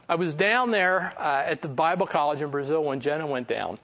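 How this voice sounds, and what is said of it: Philadelphia accent. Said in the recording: “I had a Philly accent ... You got this Philly accent.”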